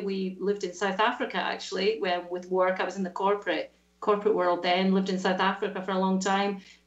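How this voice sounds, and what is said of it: Scottish accent. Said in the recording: “you don't sound so Australian. That lovely brogue there... I'm detecting a wee bit of Scotland when you talk... this is a Scottish accent.”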